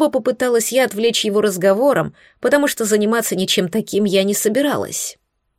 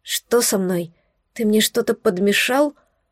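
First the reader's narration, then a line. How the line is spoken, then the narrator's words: Mutter. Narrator (Russian): Пробормотала я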